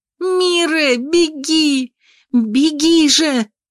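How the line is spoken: Screamed. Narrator (Russian): завопила

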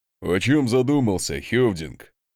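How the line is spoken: Chuckling. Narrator (Russian): хохотнул Асмунд

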